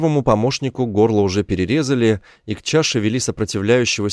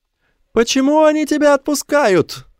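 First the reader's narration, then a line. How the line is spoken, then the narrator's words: Shouting. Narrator (Russian): закричал Мо Янг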